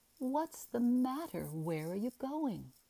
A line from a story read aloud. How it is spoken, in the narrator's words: she cried